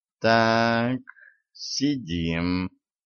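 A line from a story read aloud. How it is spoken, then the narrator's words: Drawling. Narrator (Russian): протянула она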